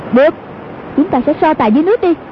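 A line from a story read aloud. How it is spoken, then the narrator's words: Shout. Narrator (Vietnamese): Hoàng Dương quát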